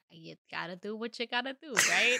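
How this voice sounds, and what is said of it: Put-on Boston accent. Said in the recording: “okay, Bill Burr ... You just you did a Boston accent.”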